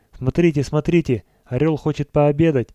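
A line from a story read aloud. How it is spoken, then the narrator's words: Exclaiming. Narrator (Russian): воскликнул Гуляев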